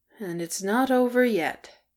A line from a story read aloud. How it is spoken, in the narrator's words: muttered Bomber